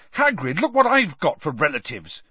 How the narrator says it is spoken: Harry said furiously

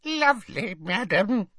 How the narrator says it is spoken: squeaked Hokey

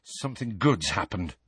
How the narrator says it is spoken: mumbled Harry

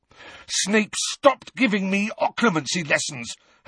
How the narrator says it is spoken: Harry snarled

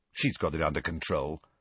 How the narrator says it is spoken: Ron muttered to Harry

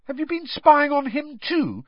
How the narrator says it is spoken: said Harry indignantly

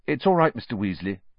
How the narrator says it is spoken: said Harry

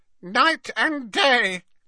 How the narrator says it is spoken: croaked Creature

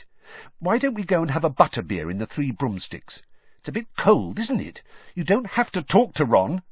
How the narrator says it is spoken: she added irritably

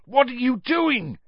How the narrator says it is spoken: yelled Cedric's voice

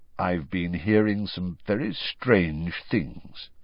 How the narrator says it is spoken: he said slowly

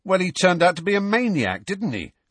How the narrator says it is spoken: said Dean hotly

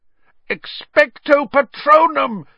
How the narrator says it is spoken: yelled, trying to blot the screaming from his ears

